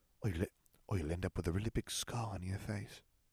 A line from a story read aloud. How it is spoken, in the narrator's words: she whispered